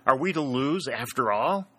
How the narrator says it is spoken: exclaimed Dick

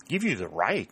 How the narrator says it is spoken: she exclaimed in surprise

